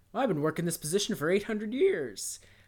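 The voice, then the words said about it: Low-pitched character voice. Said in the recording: “I don't know why I did a low voice”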